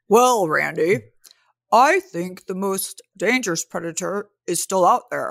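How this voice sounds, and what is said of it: Imitates another person's voice. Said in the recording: “best Chris impersonation ever”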